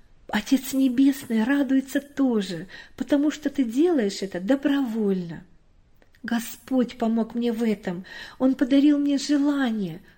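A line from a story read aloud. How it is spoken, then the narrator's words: Happy whisper in ear. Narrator (Russian): радостно шепнула Катя на ухо маме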